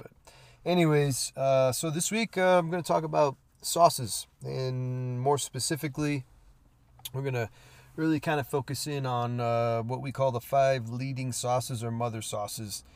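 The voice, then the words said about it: Stuffy, congested voice. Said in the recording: “might sound a little stuffy ... I basically spent uh, the past couple days pretty much out of it ... I'm getting over a little something ... I sound a little stuffy”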